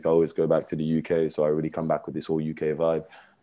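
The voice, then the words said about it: Strong accent. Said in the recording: “accent, oh my God, because I remember when you were in Montreal, your accent was not that strong as it is now”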